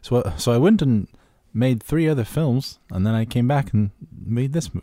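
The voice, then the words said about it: Attempted New Zealand accent, poor. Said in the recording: “I don't know how to do his accent. It's terrible. ... That was a fair attempt. ... I can't do a New Zealand accent.”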